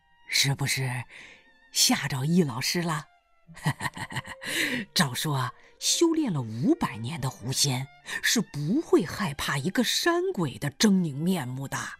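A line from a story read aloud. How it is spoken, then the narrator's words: Smiling. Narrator (Chinese): 大胡子冲他笑笑说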